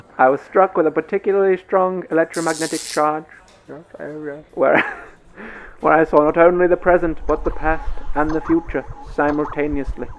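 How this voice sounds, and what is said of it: Eastern European accent. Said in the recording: “I'm living for this accent... it's good, isn't it?... Oh, it's brilliant... Eastern European... Like, I think it was like Hungarian, maybe.”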